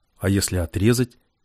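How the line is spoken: Plain. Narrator (Russian): спросил Влад

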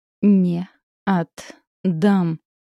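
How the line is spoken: Syllable by syllable through teeth. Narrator (Russian): По слогам процедил он

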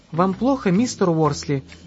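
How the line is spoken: Gentle question. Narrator (Russian): ласково спросил Ясмин

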